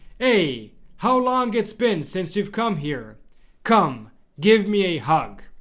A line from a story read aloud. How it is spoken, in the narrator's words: Padre Pio … exclaimed